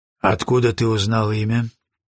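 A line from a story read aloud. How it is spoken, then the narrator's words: Plain question. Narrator (Russian): спросил Броуди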